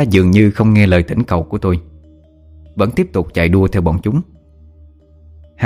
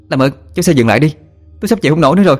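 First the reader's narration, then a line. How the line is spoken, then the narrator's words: Shouting over wind. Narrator (Vietnamese): Tôi hét lên trong tiếng gió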